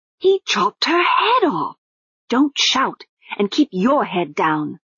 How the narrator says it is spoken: Susan hissed

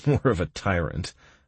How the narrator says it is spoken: I chuckled

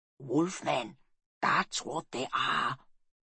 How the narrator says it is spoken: whispered Snorri

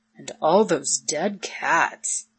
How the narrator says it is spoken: he muttered

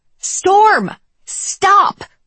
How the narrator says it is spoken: I shout it at the top of my lungs

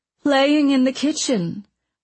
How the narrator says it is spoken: Mona said anxiously, blushing fiercely

